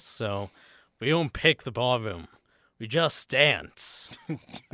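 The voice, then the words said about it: Imitates another person's voice. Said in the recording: “my Nicolas Cage impression, that is still a work in progress”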